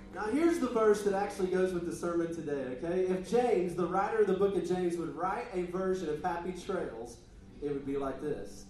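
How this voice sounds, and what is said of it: Speaks with a drawl. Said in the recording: “my drawl isn't getting worse”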